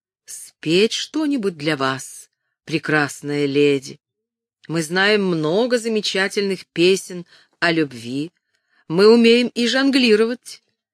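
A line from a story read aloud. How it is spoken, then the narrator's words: Young man's melodious question. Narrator (Russian): Юный предводитель труппы спросил своим мелодичным голосом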